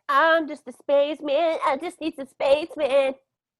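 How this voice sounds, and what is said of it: Poor impression of a singer. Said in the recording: “That's my Nick Jonas. It's terrible.”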